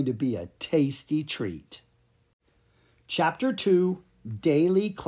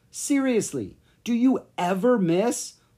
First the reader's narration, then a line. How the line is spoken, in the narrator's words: Lucas cried